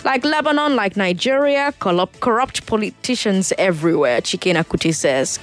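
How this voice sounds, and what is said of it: Igbo Nigerian accent slipping out. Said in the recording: “Did you hear my Igbo accent just come out?”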